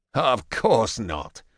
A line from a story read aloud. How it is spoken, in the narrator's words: Ajax says with a laugh